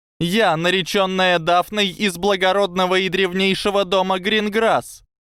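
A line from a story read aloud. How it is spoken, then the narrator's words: Shouting. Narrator (Russian): крикнула она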